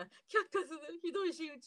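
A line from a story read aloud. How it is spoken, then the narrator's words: Crying. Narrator (Japanese): って言って泣いてますね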